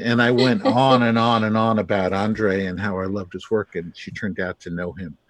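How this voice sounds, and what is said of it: Brooklyn accent. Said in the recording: “I hear the Brooklyn accent”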